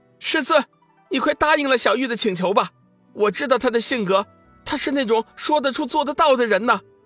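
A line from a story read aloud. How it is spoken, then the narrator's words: Anxious loud shout. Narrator (Chinese): 刚刚苏醒的云翔却是急了，大声喊道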